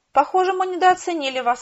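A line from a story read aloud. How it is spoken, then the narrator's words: Joyful. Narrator (Russian): радостно сказал он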